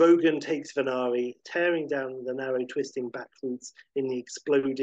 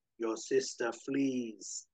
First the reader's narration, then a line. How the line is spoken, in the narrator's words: the beast says